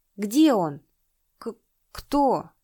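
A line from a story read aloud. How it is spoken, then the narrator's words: Stammering question. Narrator (Russian): заикаясь, спросил Няндада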